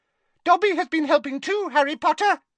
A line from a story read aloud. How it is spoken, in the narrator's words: he squeaked